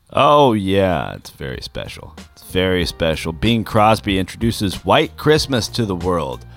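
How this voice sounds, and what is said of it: Usual voice. Nothing is said of it.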